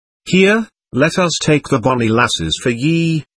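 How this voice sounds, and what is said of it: Very broad Scottish accent. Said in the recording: “in a very broad Scottish accent.”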